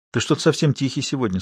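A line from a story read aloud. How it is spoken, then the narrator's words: Cheerful voice. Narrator (Russian): сказала она бодрым голосом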